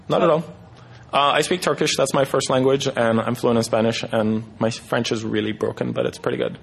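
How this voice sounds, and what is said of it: Slight Turkish accent. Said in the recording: “you have a little bit, a slight accent. ... From Turkey, yeah.”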